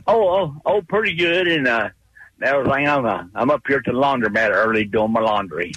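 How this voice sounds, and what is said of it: Speaker with a noticeable accent. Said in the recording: “Love this accent.”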